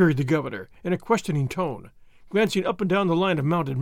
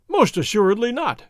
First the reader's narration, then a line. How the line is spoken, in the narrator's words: His Excellency cried